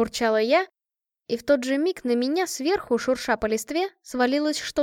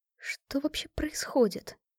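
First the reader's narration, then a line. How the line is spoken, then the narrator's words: Muttering. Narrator (Russian): пробормотала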